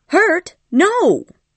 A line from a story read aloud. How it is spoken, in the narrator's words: cried Ellen angrily